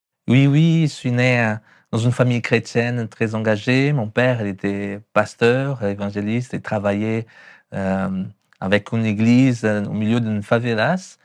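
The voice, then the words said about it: Brazilian accent speaking French. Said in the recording (French): “Mon accent. ... Ah, on l'entend bien. ... du Brésil, São Paulo.”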